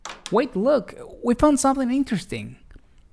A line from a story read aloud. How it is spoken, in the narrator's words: exclaimed Johnny and Carlos